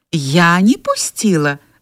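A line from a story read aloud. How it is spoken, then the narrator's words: Indignant woman's cry. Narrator (Russian): возмущенно вскричала супруга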